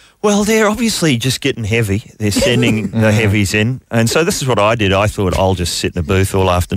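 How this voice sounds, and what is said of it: Usual voice. Nothing is said of it.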